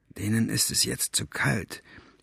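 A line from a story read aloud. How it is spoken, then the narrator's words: Hidden whisper. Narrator (German): flüsterte Staubfinger aus seinem Versteck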